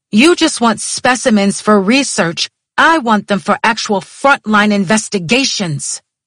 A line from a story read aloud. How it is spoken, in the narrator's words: I was almost screaming